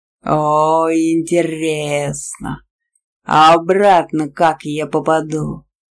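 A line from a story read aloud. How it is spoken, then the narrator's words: Growl. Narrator (Russian): прорычал колдун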